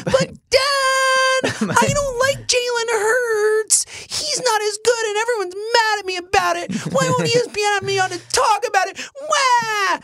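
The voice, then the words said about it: Whiny baby-like impression of another person. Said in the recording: “he does sound like a baby ... he sounds like Zoe when she's whining at me ... That's what Chris Sims sounds like to me ... best impersonation of someone I've ever done”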